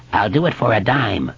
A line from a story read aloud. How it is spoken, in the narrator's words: the hobo croaked